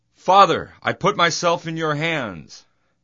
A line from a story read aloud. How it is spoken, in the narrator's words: Jesus shouted